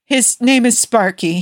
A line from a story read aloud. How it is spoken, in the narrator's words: called out